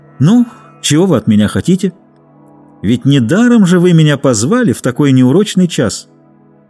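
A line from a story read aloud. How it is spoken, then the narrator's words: Cheerful. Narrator (Russian): бодро сказал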